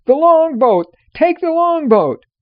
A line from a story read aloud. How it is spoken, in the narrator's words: the sailors cried out